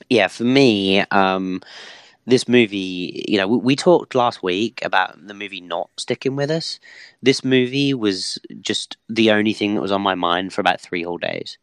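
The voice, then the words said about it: Hoarse, fading voice. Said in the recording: “why would I lose my voice this week?”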